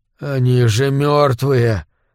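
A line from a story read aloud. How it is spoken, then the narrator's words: Forced out. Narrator (Russian): наконец выдавил он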